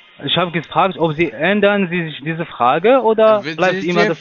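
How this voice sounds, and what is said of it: North African accent in German. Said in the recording (German): “den Akzent, was ich habe, ist ja klar für Sie ... du bist aus Nordafrika ... Marokko oder so, Nordafrika”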